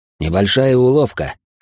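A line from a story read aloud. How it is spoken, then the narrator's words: Snort. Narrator (Russian): хмыкнул Райнхард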